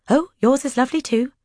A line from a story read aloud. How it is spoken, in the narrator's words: the assistant chirps